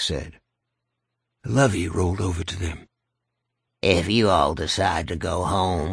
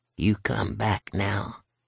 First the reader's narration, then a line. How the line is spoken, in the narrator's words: Lovey whispered in her ear